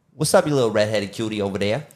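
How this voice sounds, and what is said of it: Put-on New York accent. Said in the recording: “talk in a New York accent for the rest of the podcast”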